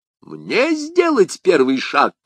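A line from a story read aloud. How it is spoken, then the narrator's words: King's exclamation. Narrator (Russian): воскликнул король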